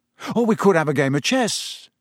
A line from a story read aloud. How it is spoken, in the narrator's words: he said hastily